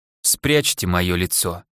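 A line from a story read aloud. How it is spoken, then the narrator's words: Broken voice. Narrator (Russian): сказал ему Декстер разбитым голосом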